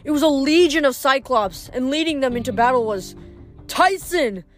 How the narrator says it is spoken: I yelled

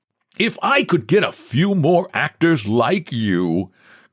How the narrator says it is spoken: cried the professional coach

